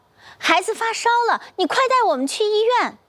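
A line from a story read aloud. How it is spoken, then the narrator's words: Anxious call. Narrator (Chinese): 赵静怡着急地叫周涛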